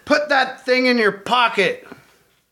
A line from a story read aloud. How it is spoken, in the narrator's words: Berra, who was in front of the bus, turned around and shouted